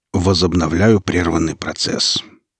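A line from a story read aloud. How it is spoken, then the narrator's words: Cold but polite. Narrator (Russian): холодно, но вежливо ответил Велес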